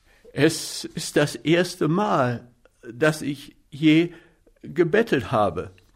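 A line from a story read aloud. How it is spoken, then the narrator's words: Trembling voice. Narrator (German): sagte ich mit zitternder Stimme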